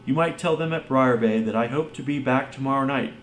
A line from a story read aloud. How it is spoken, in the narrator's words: cried Phelps